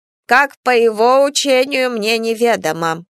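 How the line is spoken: Grumbling. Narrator (Russian): бурчала Минева

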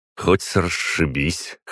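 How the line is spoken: Snort. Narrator (Russian): хмыкнул я

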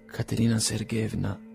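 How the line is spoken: Trembling voice. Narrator (Italian): disse egli con voce tremante

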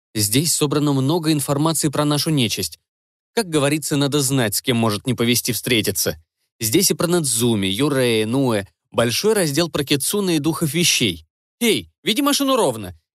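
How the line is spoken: Displeased remark. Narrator (Russian): недовольно заметил он

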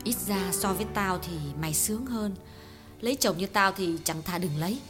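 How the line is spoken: Sighing. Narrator (Vietnamese): Hương thở dài

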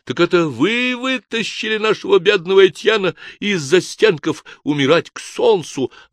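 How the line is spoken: Joyful shout. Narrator (Russian): радостно закричал

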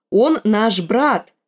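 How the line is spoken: Too loud. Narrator (Russian): сказала Арья слишком уж громко

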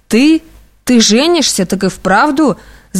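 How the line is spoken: Yelling at top of lungs. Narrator (Russian): закричал благим матом Аркаша

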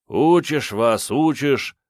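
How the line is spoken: Grumbling. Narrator (Russian): проворчал тот

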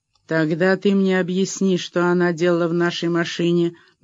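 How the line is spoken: Menacing, angry lady. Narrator (Russian): грозно обратилась разгневанная дама

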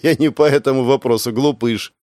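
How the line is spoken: Nervous chuckle. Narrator (Russian): нервно хохотнула

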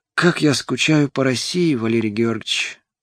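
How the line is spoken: Eager breathy exhale. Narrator (Russian): Жадно выдохнула

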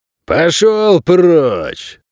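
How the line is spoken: Irritated bark. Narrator (Russian): раздраженно рявкнул хозяин номера

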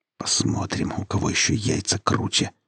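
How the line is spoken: Whisper. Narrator (Russian): прошептал Вадим

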